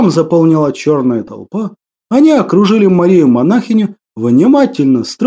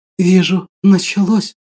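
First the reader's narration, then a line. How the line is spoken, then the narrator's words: Whisper. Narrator (Russian): прошептала Мария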